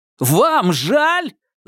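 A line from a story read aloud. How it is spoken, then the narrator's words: Yelling. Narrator (Russian): заорал Илюшин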